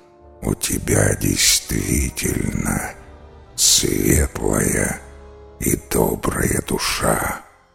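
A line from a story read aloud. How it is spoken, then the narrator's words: Creaky monster voice. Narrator (Russian): проскрипело чудовище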